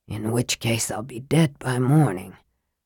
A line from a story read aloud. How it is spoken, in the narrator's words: Raistlin muttered